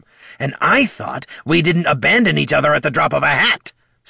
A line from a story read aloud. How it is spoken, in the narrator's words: snapped Bert